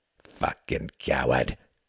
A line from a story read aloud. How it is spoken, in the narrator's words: he snarled